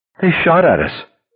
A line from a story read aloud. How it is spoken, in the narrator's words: Her voice began to rise